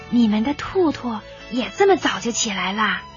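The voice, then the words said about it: Quiet hushed voice. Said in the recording (Chinese): “小声的对兔妈妈说”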